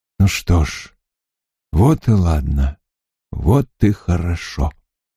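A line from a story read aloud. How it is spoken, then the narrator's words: Calm despite fear. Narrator (Russian): Ему стало страшно, спокойно сказал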